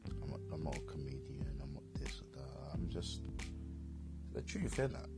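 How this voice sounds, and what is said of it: English accent. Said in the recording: “my English dialect”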